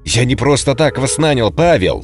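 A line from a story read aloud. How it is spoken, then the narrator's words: Shout after someone. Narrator (Russian): крикнул Лукьянов вдогонку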